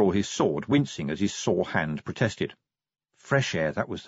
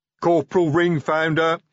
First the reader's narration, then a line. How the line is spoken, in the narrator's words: he bellowed